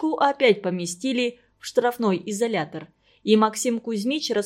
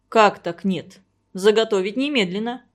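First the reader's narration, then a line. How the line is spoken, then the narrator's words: Stern command. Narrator (Russian): строго приказал Максим Кузьмич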